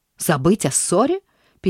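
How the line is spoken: Angry interruption. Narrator (Russian): перебил сердито

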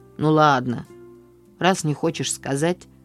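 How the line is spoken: Grumbling. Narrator (Russian): проворчал

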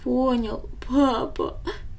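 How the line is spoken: Sobbing boy. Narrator (Russian): всхлипнул мальчик

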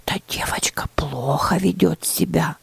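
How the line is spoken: Whispered. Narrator (Russian): прошептала Лаура

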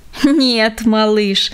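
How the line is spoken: Old man laughing. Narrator (Russian): засмеялся дедушка

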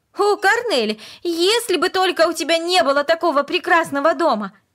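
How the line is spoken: Sudden passionate exclamation. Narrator (Russian): Вдруг она страстно воскликнула

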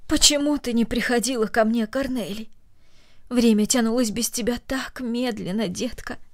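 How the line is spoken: Tender. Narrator (Russian): добавила она нежно

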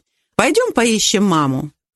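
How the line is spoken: Forced cheerful suggestion. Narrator (Russian): Колин нарочито весело предложила

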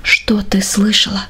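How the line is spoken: Quiet question. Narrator (Russian): спросил он тихим голосом

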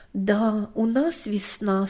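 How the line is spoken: Plain. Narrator (Russian): сказала мама

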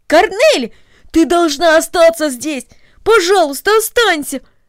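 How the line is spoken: Pleading exclamation. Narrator (Russian): воскликнул Дино

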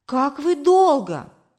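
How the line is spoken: Exclaiming. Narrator (Russian): воскликнула мама

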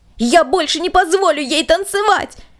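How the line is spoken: Furious shout. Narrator (Russian): с пылающим от гнева лицом, закричал

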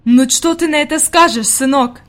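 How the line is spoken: Exclaiming. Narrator (Russian): воскликнула она

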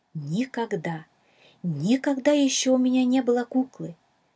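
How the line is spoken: Excited exclamation. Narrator (Russian): Взволнованно воскликнула Шала

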